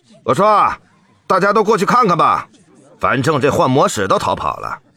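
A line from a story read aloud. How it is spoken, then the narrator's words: Village chief's loud voice. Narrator (Chinese): 村长大声说了一句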